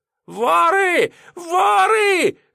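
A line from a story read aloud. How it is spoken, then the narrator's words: Yelling while moving. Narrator (Russian): вопил на ходу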